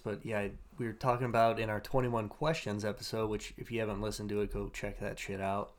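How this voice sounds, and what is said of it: Hoarse, froggy voice. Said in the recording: “I got a frog in my throat here ... I apologize if my voice sounds a little weird”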